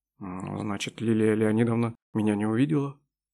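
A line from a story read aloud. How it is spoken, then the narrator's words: Very calm. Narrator (Russian): очень спокойно ответил Роберт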